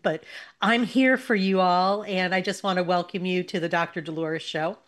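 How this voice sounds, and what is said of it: Husky voice from a cold. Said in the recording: “I have my sexy voice today because I think I'm coming down with a little cold”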